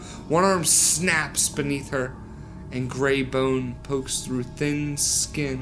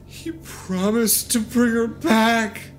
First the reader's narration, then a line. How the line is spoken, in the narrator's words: I wail